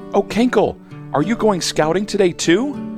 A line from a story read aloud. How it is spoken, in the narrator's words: Hannah Bee buzzes excitedly